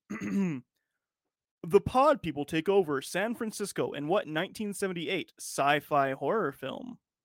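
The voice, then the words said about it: Quiz show announcer voice. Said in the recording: “I'm going to do my best announcer quiz show question guy ... So you can get your announcer voice up.”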